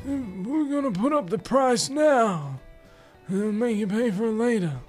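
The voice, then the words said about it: Godfather-style mobster impression. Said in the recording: “they're being ran by the Godfather or something like that ... that impersonation”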